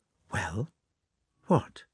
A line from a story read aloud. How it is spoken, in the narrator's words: the Countess went up to Natasha and whispered